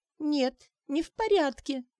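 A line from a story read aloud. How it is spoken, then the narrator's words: Sobbing. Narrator (Russian): она зарыдала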